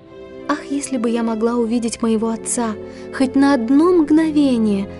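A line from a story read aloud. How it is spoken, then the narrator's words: Plain. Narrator (Russian): ответила она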